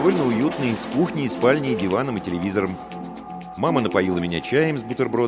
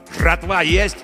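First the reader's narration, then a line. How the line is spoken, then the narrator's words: Angry barking shout. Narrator (Russian): гаркнул злой незнакомый голос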